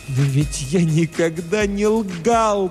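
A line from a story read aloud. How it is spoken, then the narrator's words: Sudden loud wailing moan. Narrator (Russian): простонал он вдруг громким плачущим голосом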